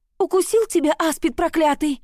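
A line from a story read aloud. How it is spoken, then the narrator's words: Shrill squeal. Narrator (Russian): Заряна аж взвизгнула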